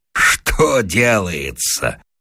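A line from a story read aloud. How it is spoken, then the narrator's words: Loud laughter. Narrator (Russian): расхохотался Вася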